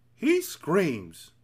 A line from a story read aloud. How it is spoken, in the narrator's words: answered the Din, looking up happily